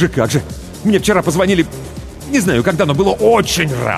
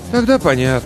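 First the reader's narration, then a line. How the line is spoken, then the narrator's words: Sighing. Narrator (Russian): Василий вздохнул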